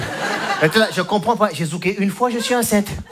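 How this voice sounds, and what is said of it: Put-on regional accent. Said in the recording (French): “je sais pas d'où me vient cet accent... je viens de Clermont-Ferrand, moi, donc rien à voir”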